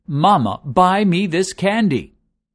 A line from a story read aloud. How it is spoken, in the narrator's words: The boy asks again, this time in a louder voice